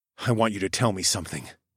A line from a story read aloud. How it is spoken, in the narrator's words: I whispered